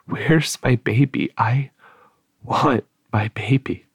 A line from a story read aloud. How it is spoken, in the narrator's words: Barb wasn't fully conscious, but continued to moan